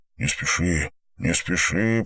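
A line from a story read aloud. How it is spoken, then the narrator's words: Muttered. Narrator (Russian): пробормотал Андрей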